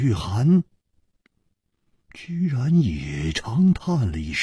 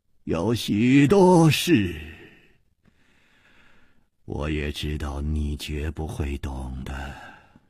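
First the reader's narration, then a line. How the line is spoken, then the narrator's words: Calm, sighing. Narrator (Chinese): 李玉涵也不生气，竟又叹息了一声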